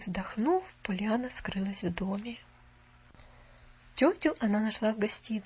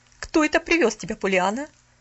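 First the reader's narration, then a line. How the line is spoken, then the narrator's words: Stern question. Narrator (Russian): строго осведомилась мисс Харрингтон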